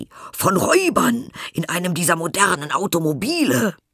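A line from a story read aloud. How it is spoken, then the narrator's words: Shouting. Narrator (German): schrien sie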